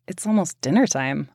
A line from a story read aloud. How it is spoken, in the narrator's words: I murmured